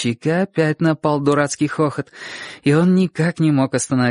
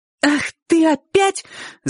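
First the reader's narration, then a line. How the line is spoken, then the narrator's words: Furious shout. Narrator (Russian): закричала она с такой злостью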